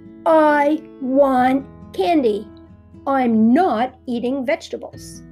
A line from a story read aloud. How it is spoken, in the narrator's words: In an angry, frustrated, and demanding voice, Groundo shouted